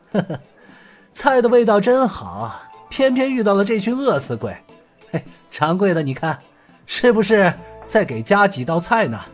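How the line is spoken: Embarrassed laugh. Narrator (Chinese): 葛统领不好意思的笑了笑

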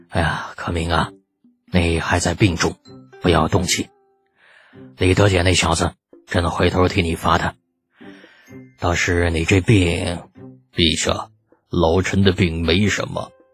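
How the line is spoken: Deeply regretful sigh. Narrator (Chinese): 李二极为惋惜的叹了口气

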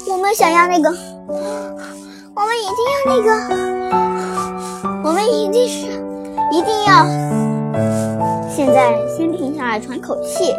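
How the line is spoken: Heavy panting. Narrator (Chinese): 大口大口的喘着粗气说

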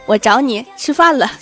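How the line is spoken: Chuckling old man. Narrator (Chinese): 我爷爷冲我嘿嘿一笑，说

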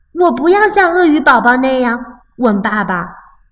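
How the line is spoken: Child crying out. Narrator (Chinese): 熊宝宝叫道

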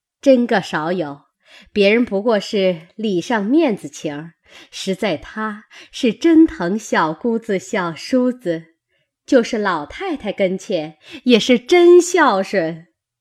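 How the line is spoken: Laughing together. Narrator (Chinese): 薛姨妈、李婶娘、尤氏齐笑说

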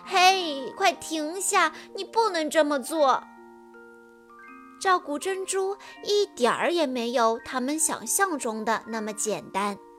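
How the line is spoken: Crying. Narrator (Chinese): 安博哭着说

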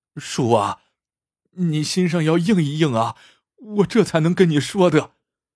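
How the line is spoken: Choked, tearful. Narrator (Chinese): 竟眼圈一红，落下泪来，哽咽着说

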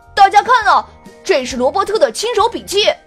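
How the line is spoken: Loud. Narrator (Chinese): Mark 高声说道

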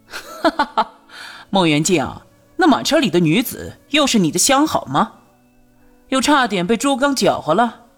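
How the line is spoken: Loud laughter. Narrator (Chinese): 朱瑜大笑道

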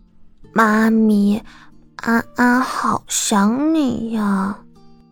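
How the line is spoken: Child's soft voice. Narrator (Chinese): 安安小声道

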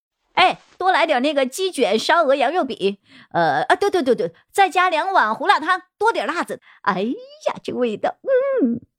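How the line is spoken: Called out. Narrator (Chinese): 萧建成回头的叫了句

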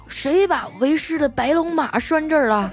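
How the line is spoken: Mumbled, indistinct shout. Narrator (Chinese): 这丸子他爸 嘴里还含糊不清的喊道

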